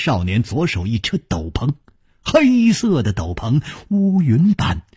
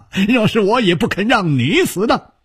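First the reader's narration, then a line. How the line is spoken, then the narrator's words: Laughing. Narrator (Chinese): 他笑着说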